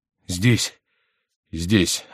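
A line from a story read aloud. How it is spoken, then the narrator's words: Trembling voice. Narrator (Russian): отвечал Генрих дрожащим голосом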